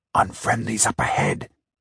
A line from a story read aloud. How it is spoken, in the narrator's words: he whispered